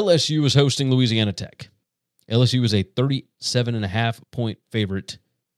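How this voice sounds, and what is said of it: Usual voice. Nothing is said of it.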